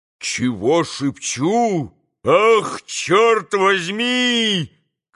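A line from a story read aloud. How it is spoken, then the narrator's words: Sudden full-voiced shout. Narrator (Russian): крикнул вдруг Дмитрий Федорович самым полным голосом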